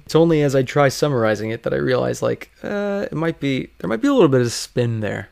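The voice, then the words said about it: Strained, fading voice. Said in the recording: “I feel like I'm losing my voice.”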